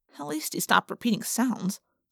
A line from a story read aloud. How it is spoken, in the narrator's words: I muttered